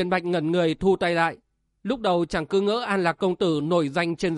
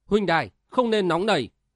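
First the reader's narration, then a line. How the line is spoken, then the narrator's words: Loud laughing. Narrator (Vietnamese): An Lạc công tử cười lớn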